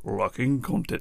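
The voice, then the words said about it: Silly put-on voice. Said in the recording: “silly voice”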